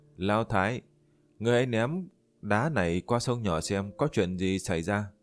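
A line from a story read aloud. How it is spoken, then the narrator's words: Smiling. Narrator (Vietnamese): Liễu Tuyết mỉm cười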